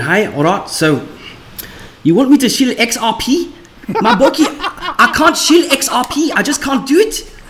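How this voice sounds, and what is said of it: Put-on South African accent. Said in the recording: “the worst accent you could think of ... I thought the word ripple would sound funny with a South African accent.”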